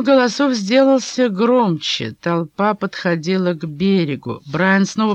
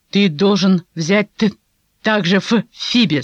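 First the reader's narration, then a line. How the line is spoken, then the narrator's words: Plain. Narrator (Russian): сказала Оливия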